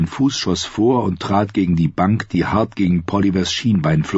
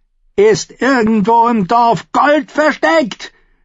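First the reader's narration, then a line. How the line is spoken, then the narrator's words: Shout. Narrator (German): schrie sie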